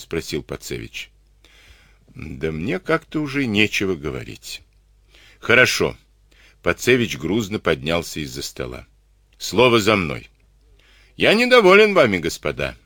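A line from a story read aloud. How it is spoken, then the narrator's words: Stern reprimand. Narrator (Russian): строго выговорил он офицерам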